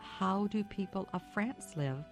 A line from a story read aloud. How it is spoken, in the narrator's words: she asked him